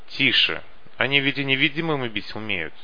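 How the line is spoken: Sharp scolding shout. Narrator (Russian): прикрикнул на него малек

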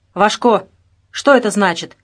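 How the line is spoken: Angry bark. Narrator (Russian): рявкнул Олег Вячеславович

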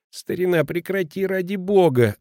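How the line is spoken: Whining. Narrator (Russian): скулит Петрина

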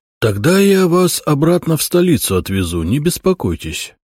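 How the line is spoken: Sad. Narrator (Russian): грустно сказал Брусницын

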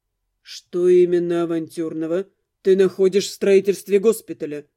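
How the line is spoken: Even-voiced question. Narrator (Russian): Ровным голосом поинтересовался Дамиан

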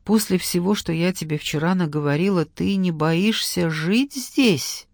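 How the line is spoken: Quiet, uncertain woman. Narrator (Russian): Она неуверенно взглянула на Веру и тихо произнесла

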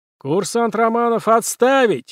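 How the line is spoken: General yelling. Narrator (Russian): заорал генерал Ушаков с трибуны

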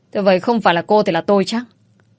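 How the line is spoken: Loud angry shout. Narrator (Vietnamese): Ông Đông cho rằng Ánh Dương ngụy biện, lớn giọng rồi quát

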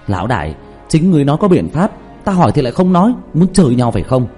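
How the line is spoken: Angry near-shout. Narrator (Vietnamese): Diệp Thiếu Dương thiếu chút nữa thì tức khí la lên

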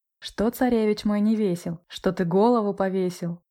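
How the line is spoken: Plain. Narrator (Russian): спросила она

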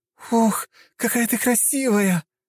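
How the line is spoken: Near-squeal, excited. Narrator (Russian): почти завизжала Лиза

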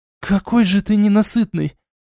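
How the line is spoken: Hoarse, breathless rasp. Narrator (Russian): прохрипела Арчанка, едва отойдя от впечатлений

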